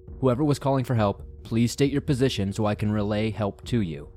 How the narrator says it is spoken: I said

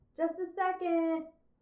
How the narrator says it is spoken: shouted a voice from the back room, somewhat muffled

